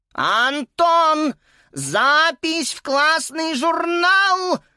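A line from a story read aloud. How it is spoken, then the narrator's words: Yelling. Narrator (Russian): завопила тут же госпожа Пенне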